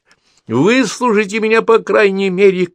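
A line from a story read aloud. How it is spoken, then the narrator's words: Aunt shouting after someone. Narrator (Russian): крикнула ему вслед тетя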